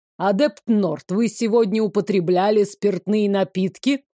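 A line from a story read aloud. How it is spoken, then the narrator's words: Stern question. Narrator (Russian): Строгим голосом спросил Мин Кранкар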